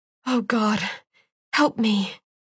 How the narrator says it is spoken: whispered

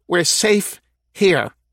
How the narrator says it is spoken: snapped one of the women

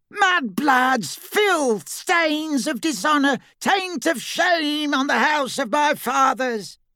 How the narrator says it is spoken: Black continued to scream

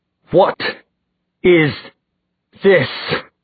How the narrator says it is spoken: he demanded through clenched teeth

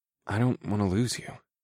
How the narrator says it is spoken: I murmured

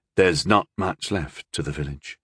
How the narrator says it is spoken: Rondal said gently

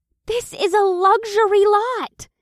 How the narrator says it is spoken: Janine gasped

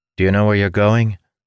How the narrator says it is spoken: the lieutenant asked

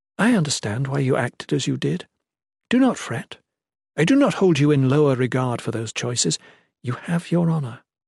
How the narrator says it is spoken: the Shalane returned tenderly

